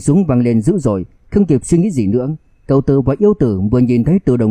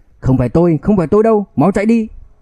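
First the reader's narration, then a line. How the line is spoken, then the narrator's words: Terrified scream. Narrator (Vietnamese): Lão Tư hét lên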